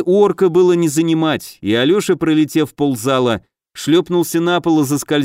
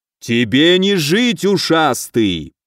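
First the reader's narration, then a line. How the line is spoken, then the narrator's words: Growling threat. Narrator (Russian): прорычал Грыга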